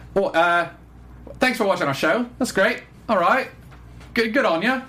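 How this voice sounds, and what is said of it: Poor put-on New Zealand accent. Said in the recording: “let me see if I can do the New Zealand accent right ... terrible”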